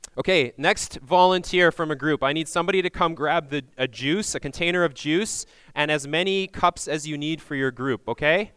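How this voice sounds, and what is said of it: Loud, yelling voice. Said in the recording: “I'm yelling into the microphone ... This is my phone voice”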